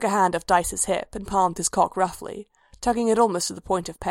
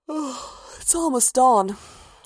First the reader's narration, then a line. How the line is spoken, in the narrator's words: Rhea said, yawning